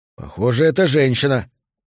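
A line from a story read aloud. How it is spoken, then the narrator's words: Muttered. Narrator (Russian): пробормотал Торрес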